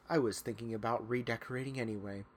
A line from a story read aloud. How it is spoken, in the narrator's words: he muttered silently